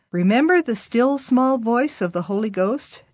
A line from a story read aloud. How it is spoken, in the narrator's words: Dad asked